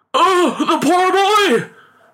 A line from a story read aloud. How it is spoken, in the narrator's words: cried the father in alarm